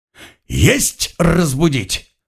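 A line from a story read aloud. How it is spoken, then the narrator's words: Growled. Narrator (Russian): рыкнул служивый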